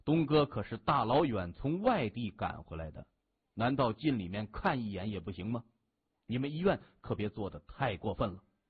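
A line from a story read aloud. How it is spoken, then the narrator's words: Deep, cold voice. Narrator (Chinese): 那名头目冷着脸 他沉声说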